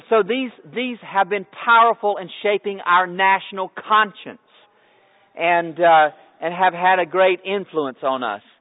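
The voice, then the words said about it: Loud, projected speaking voice. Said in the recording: “I'm talking so loud ... I'm doing that so that you can hear me”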